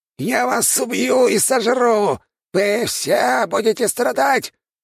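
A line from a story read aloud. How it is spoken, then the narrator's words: Squeaky threat. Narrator (Russian): пропищал король-крыс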